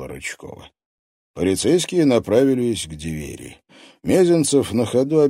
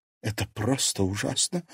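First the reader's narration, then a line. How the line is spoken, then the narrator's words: Woman quietly sobbing. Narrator (Russian): женщина тихо всхлипнула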